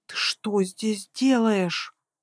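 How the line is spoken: Hissed. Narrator (Russian): зашипела я на него

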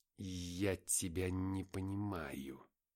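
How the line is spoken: More hissing voice. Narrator (Russian): выдал странник еще более шипящим голосом

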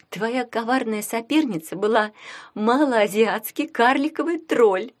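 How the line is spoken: Barely speaking through laughter. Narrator (Russian): едва выговорила сквозь смех Таня

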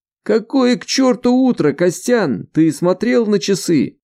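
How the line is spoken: Deafening exclamation. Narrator (Russian): Воскликнул голос, чуть не оглушив своего собеседника

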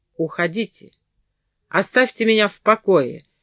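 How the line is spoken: Harsh uncharacteristic shout. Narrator (Russian): крикнул он весьма резким тоном, до сих пор совершенно не свойственным ему

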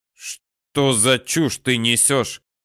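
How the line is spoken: Barking. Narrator (Russian): рявкнул

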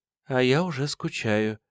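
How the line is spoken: Whisper over phone. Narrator (Russian): прошептала трубка

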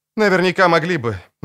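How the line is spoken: Woman sighing. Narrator (Russian): вздохнула женщина

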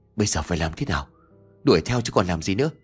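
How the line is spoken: Weak trembling reply. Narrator (Vietnamese): Đức đáp lại bằng một giọng run rẩy như kẻ yếu hơi

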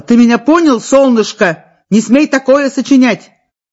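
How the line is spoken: Shouting. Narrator (Russian): Нина кричала

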